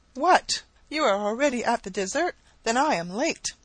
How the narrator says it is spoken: she exclaimed with a winsome naivety

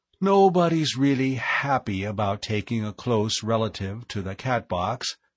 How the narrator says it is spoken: said

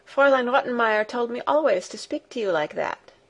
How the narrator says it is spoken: said Heidi

